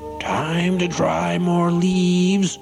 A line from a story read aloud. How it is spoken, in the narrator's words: he shouted in his gruff voice